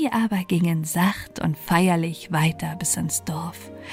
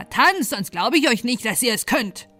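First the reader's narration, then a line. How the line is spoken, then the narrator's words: Calling out. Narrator (German): rief er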